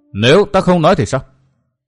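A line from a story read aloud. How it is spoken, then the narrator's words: Cold voice. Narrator (Vietnamese): Phỉ Ngọc Hoàn nói giọng lạnh lùng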